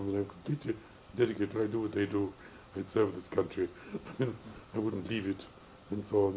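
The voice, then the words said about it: Odd accent, neither foreign nor English. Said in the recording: “my accent isn't that of an Englishman... Not really, I don't know what it is. But it's something funny... It's of your own invention... something exotic, something odd. It's not foreign. But nor is it English.”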